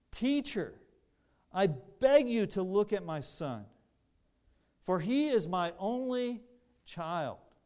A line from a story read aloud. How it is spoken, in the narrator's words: the father actually cried out